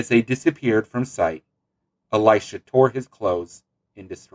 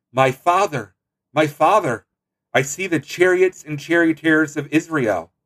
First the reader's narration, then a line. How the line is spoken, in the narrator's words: cried out